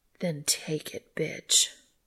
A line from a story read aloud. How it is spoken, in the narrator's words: she growled